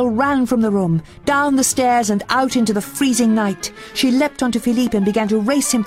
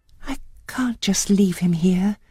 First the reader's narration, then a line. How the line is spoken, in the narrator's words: said softly